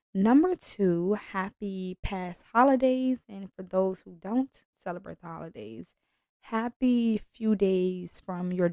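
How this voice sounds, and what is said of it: Raspier than normal voice. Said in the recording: “I sound a little different today because I just got over a cold, which kind of led my voice to leave the room. So it's a little raspier than normal”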